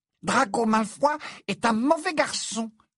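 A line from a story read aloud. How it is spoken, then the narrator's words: Angry squeak. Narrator (French): couina Dobby avec colère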